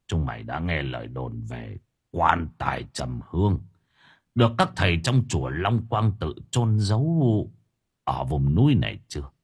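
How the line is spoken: Stern voice. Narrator (Vietnamese): Ông Minh nghiêm giọng

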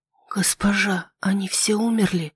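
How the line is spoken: Barely audible whisper. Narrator (Russian): одними губами прошептала Нетта

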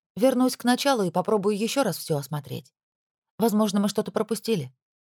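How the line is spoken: Calm. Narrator (Russian): спокойно ответила ему Пенелопа

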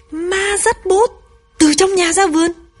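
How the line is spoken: Astonished exclaiming. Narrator (Vietnamese): Dung chố mắt kêu lên

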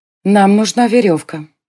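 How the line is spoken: Dry. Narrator (Russian): сухо сказала она

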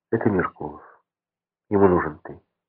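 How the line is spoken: Whisper. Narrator (Russian): прошептала

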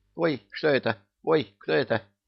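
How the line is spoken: Overlapping squeaky voices. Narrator (Russian): Наперебой запищали Парашка и Малашка

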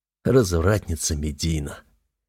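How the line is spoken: Hoarse reply. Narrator (Russian): Хрипло отзываюсь я

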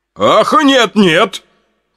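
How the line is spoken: Hasty shout. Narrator (Russian): поспешно закричал Юлиан Мостакович

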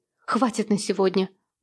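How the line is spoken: Curt mutter. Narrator (Russian): буркнула она

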